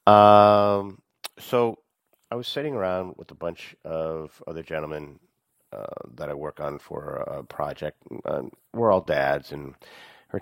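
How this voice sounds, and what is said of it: Congested, sick-sounding voice. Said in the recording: “I have a cold. I had a cold. I guess I still have a cold if I sound this way”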